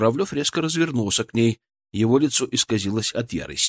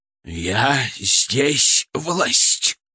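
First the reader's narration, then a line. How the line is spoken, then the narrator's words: Through gritted teeth. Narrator (Russian): процедил он сквозь зубы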